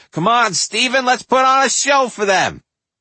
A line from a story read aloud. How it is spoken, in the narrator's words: Aunt Phyllis would holler